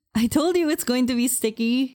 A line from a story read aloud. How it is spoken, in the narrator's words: April exclaimed, laughing